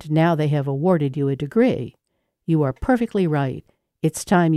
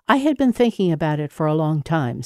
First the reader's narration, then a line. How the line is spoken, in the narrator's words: said Dédé